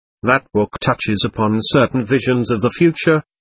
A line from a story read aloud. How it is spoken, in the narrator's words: she explained in a gentle voice